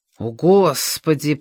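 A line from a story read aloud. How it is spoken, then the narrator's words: Mutter. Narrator (Russian): пробормотал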